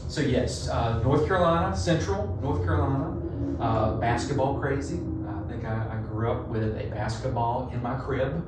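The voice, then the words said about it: Southern US accent, North Carolina. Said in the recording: “I'm from North Carolina. I try to hide the accent. I really try. It does not work. ... I get joked from my accent all the time. People think I'm from Texas.”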